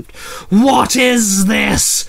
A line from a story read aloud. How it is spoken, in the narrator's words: Krampus roared